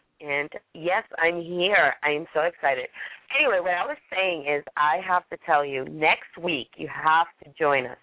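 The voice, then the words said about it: Hoarse voice. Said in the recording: “what's wrong with your voice? ... literally 2 days ago, nothing was coming out. It was squeak, squeak, squeak. So now I'm a little hoarse, but I'm feeling a lot better.”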